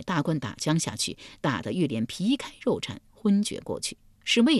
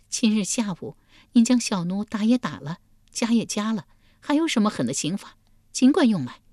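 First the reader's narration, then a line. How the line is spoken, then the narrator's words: Bitter laugh. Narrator (Chinese): 玉莲苦笑一声道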